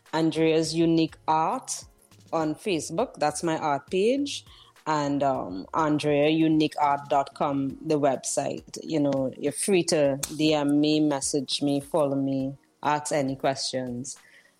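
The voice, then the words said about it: Noticeable accent, possibly hard to understand. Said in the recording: “my accent, I don't know if they understand.”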